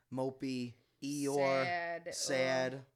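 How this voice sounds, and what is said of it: Mopey Eeyore cartoon voice. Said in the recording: “that was a really good Eeyore impression.”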